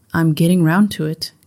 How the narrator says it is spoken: Gacy said

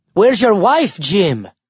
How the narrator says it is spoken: Guido LaManche had called out from the back row

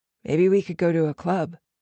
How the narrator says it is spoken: Jude had suggested

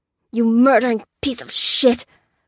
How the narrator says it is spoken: grunted Lopez

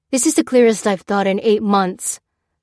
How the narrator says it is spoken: snapped Lopez, raising his voice

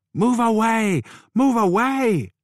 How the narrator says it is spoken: another woman yelled, an older woman

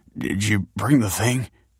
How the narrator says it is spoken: said Tony anxiously

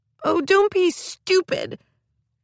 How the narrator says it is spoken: wailed Mim

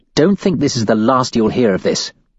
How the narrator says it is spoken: snaps

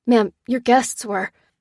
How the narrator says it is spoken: stammered the DJ

